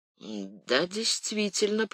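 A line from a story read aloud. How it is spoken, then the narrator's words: Mumbled. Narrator (Russian): пробормотал Фуке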